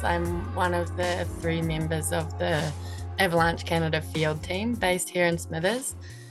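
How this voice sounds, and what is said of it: New Zealand accent. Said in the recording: “Obviously from my accent, you can tell that I'm from New Zealand”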